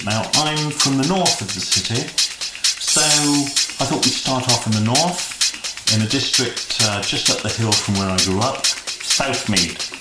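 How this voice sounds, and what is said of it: Bristol English accent. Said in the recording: “the variations in the Bristol accent”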